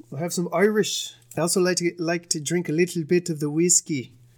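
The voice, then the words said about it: Put-on Irish accent. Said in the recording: “I saw that accent. ... I feel like that accent was pretty good”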